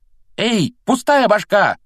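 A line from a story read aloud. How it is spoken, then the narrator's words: Yell. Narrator (Russian): заорал Рон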